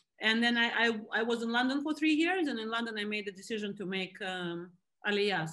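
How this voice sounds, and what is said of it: Russian accent in English. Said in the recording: “I left Russia when I was 25. That Russia is where I was born. I mean, you can still hear by the accent, no matter what.”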